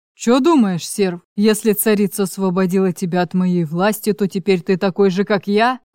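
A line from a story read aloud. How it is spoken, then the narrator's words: Menacing growl in ear. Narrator (Russian): Угрожающе прорычал Углеп в ухо Гордею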